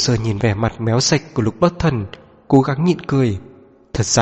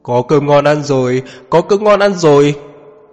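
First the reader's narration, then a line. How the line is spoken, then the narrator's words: Excited yelling. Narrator (Vietnamese): Vừa nghe tới chuyện Lục Bất Thần đặt một bàn ăn tối đẩy nến, anh ấy nhảy cao hơn ai hết, miệng kêu gào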